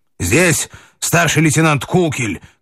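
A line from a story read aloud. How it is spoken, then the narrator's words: Shouted. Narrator (Russian): крикнул он Семену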